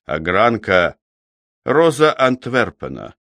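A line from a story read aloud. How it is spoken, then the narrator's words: Brief, calm interjection. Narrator (Russian): коротко и спокойно вставил месье Аржон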